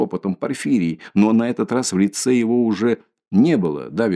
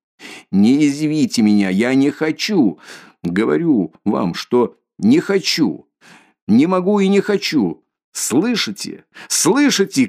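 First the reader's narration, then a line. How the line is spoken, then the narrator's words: Shouted. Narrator (Russian): крикнул он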